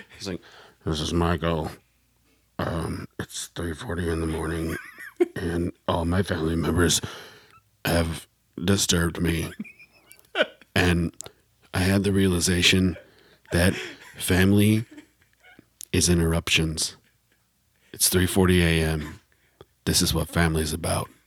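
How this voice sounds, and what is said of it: Imitates another person's voice. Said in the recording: “I'd love to hear you impersonate me do it.”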